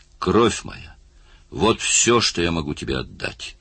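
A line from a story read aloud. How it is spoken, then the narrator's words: Exclaimed. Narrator (Russian): воскликнул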